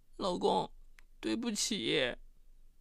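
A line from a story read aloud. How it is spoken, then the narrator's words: Choked with tears. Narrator (Chinese): 她哽咽着对卢宝芳说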